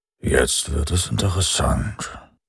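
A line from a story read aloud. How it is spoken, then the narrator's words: Mumbled around pipe. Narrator (German): nuschelte um das Mundstück seiner Pfeife herum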